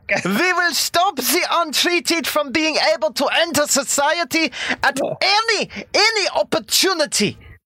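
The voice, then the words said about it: Put-on foreign accent. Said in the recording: “I don't know what kind of accent.”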